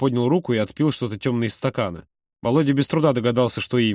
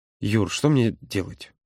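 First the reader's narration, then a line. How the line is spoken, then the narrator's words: Quiet. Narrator (Russian): тихо произнес он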